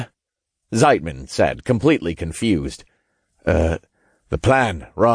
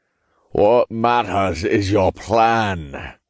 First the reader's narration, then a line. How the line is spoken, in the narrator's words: Todd shot back in a raspy Scottish accent